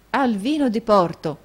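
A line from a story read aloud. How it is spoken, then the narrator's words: Exclamation. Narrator (Italian): esclamò Nicola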